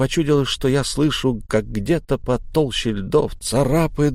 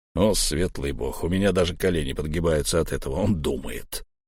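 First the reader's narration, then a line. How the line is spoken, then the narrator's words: Quiet snort. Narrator (Russian): тихо фыркнул Буран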